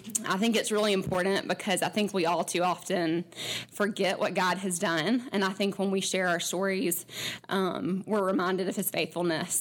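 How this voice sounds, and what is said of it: Shaky, trembling voice. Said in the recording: “my voice is shaking”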